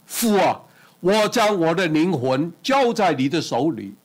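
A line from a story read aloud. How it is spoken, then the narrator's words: Loud cry. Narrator (Chinese): 耶稣大声喊着说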